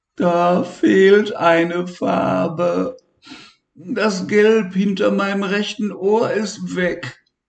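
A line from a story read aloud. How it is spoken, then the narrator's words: Whining. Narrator (German): jammerte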